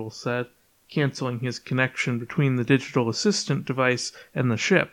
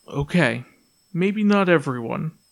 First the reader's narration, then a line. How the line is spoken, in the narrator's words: Penuel sighed